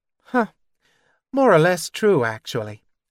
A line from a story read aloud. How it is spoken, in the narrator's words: sighed